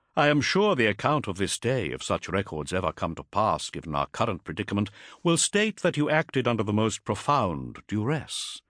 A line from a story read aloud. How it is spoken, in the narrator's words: he said smoothly